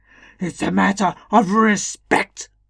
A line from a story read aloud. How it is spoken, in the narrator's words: boomed out more than once